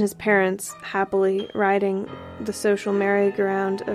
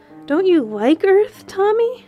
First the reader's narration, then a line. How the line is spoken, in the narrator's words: queried his mother anxiously